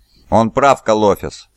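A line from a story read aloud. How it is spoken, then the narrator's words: Plain. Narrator (Russian): сказал Магнус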